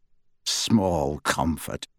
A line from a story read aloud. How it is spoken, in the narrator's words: snarled Kingsley